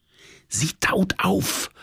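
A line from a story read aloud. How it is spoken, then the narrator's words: Whispered. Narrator (German): flüsterte meine Liebste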